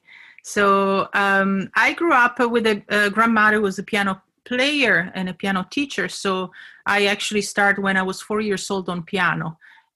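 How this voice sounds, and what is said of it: Italian accent. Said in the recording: “if you're wondering my accent, where it's from, I'm from Italy”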